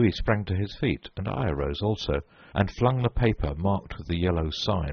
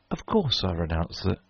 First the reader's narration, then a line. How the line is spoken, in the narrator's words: Louis looked at me with a startled air, but recovering himself said kindly